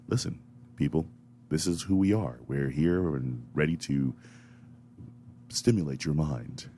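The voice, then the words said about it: Deep, soothing radio announcer voice. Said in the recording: “radio voice that everyone's wanting to hear ... going down and deep with my radio voice ... trying to soothe you”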